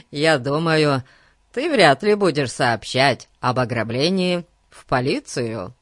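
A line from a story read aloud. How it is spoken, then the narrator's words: Laughing. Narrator (Russian): рассмеялся Ларри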